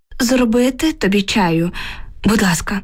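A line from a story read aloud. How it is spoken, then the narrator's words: Weary sigh. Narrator (Ukrainian): відповіла я і тяжко зітхнула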